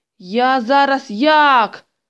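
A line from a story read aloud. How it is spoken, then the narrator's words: Loud crying. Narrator (Ukrainian): Тома голосно заплакала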